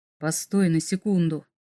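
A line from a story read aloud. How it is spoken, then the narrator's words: Very quiet. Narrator (Russian): очень тихо произнес Вергард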